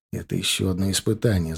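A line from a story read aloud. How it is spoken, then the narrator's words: Whisper into ear. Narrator (Russian): зашептал я Костяну в ухо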